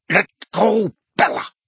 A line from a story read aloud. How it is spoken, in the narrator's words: snarled Narcissa